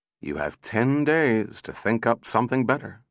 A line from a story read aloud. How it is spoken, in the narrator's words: said Powell wearily